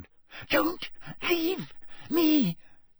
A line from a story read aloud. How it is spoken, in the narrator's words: he whispered